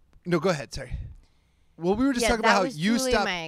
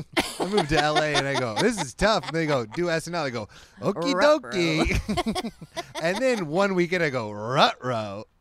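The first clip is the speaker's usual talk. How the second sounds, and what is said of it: Mocking impression of the other host. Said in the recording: “You're doing an impression of me.”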